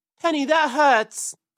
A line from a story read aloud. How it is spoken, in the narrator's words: cried Peter as the thorns pulled his fur